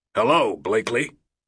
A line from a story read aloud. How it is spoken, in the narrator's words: Bill Fry's voice growled back